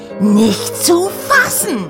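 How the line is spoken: Scream. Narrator (German): schrie Oda

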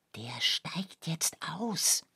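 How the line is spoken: Whisper. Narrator (German): flüsterte Oskar

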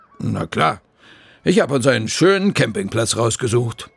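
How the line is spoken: Deep female voice. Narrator (German): antwortet Frau Krüger mit ihrer tiefen Stimme

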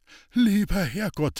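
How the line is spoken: Panted. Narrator (German): keuchte Hans-Peter

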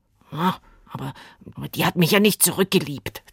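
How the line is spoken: Angry hiss. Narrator (German): zischte Willi böse

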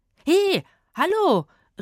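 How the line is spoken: Calling after someone. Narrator (German): rief Rufus ihm hinterher

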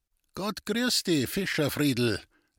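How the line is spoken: Calling out to someone. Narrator (German): rief er jetzt dem Burschen zu

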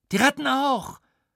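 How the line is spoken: Quick shout. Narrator (German): schrie Roja sofort

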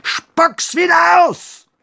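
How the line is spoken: Roar. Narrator (German): brüllte er dem Basilisken zu

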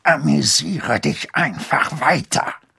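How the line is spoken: Hiss. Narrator (German): zischte Skrump

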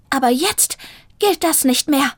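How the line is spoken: Hiss. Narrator (German): fauchte Zelda

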